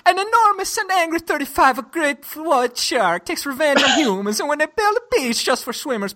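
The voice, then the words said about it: Put-on Italian accent. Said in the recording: “reading the storyline to that movie in an Italian accent”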